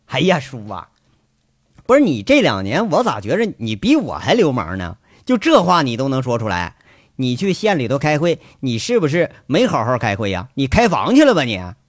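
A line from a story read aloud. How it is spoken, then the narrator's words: Slightly annoyed. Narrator (Chinese): 七叔有点恼怒了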